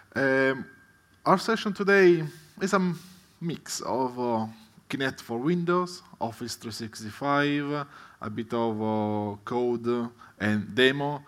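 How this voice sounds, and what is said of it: Italian accent. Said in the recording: “Despite my accent, well, I'm Italian”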